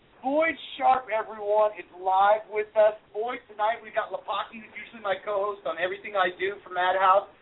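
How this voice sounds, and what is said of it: Funky accent. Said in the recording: “The funky accent hides it nicely.”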